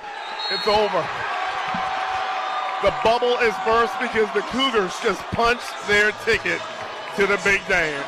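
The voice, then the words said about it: Speaker with a striking accent. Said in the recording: “That accent's awesome. That's great. I love that.”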